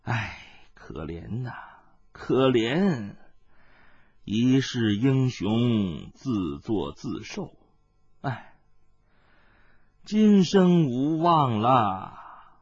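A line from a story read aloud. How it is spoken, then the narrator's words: Relieved old woman murmuring. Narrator (Chinese): 那老婆子松了一口气，喃喃的叹道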